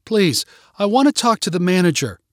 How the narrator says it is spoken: Jessica cried out

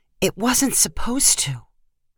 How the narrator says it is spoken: She whispered back

